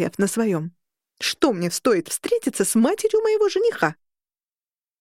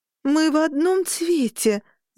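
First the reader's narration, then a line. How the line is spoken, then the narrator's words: Groaning. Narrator (Russian): застонала я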